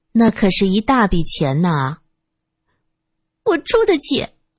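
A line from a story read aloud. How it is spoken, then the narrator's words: Sarcastic. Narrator (Chinese): 金女士没有想到吴美云这么执着，她语带讽刺的说道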